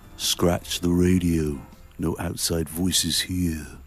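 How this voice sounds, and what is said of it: Imitates a singer's voice. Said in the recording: “great Peter Gabriel impersonation”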